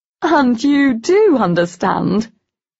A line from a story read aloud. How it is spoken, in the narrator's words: Eleanor laughed